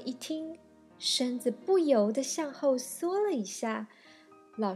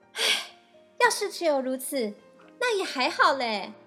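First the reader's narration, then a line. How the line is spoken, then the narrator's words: Teacher, raised voice. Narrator (Chinese): 老师却又提高声调说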